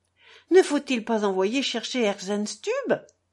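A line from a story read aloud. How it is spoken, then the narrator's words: Mother's exclamation. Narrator (French): s'écria la mère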